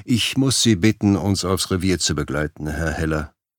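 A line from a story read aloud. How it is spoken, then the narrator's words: Calm interruption. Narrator (German): unterbrach Tom ihn ruhig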